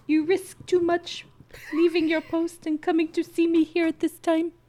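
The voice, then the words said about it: Character voice for a fictional figure. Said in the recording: “gonna do my Edric voice”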